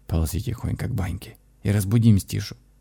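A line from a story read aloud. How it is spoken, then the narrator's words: Whispered command. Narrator (Russian): шепотом отдал я команду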